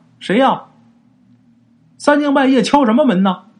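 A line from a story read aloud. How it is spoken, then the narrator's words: Asking. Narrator (Chinese): 里边问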